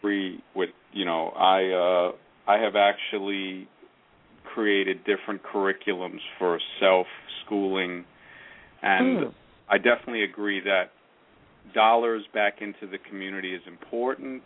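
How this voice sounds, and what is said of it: New York accent. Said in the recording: “I could tell that New York accent.”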